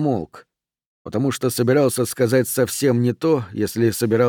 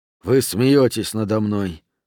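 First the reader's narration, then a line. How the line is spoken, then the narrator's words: Sighed. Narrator (Russian): вздохнул Рент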